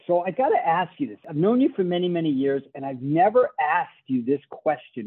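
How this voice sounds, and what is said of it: Boston accent. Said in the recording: “I grew up at Fenway Park in Boston, Massachusetts. So, you know, I have a funny accent.”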